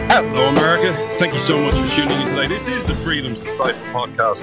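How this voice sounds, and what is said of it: Irish accent. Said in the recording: “This Irish man ... you come for the accent”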